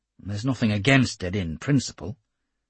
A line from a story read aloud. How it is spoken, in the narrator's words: Campbell muttered